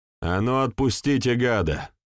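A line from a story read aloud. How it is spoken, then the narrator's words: Shout. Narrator (Russian): крикнул Егор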